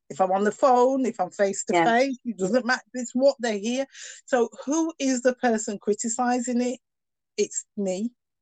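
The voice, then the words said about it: Northern English accent. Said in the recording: “I've got a very northern accent”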